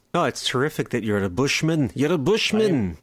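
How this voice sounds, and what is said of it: Put-on Scottish-leaning British accent. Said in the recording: “you said, for some reason in a British accent. ... Oh, it's more Scottish than anything. ... I suppose it was Scottish.”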